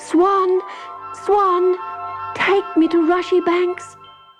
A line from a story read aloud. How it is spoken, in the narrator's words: poor little Susan cried